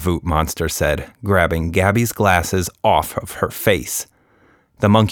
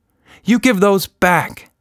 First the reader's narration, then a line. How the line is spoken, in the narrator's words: shouted Nina